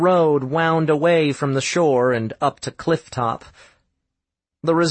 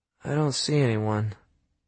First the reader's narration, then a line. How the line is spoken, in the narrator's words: Quinn said in a subdued whisper